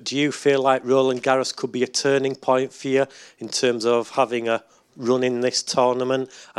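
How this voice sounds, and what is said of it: Strong Yorkshire English accent. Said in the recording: “Yorkshire in England ... that accent. Love it. I didn't understand a word you're saying”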